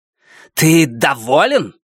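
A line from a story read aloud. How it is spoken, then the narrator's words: Barked angrily. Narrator (Russian): рявкнула Нефрита на Луна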